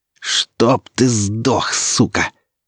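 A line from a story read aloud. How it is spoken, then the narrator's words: Furious distant growl. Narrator (Russian): кто-то яростно прорычал в глубине пещеры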